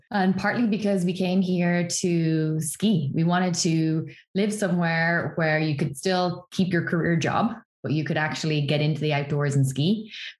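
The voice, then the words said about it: Irish accent. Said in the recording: “I am originally Irish, as people will hear from the strange accent”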